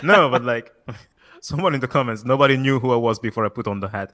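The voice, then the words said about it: Soft French accent. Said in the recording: “That French accent. ... ASMR French.”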